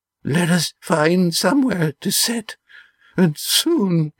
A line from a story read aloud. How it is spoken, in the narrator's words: wheezed the old man